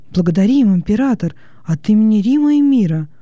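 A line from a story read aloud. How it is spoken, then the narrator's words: Exclaiming. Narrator (Russian): воскликнул Доминици Арф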